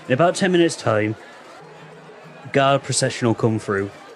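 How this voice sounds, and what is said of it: Put-on Somerset accent. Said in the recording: “I keep on going into the fucking Somerset accent.”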